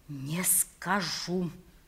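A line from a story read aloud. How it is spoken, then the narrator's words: Even quieter whisper. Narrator (Russian): прошептал я еще тише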